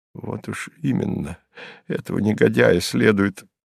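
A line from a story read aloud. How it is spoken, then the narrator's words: Low-voiced start. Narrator (Russian): начал вполголоса Житков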